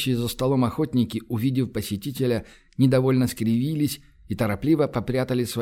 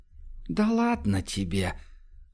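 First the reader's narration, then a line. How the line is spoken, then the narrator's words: Conspiratorial whisper. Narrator (Russian): заговорщически зашептал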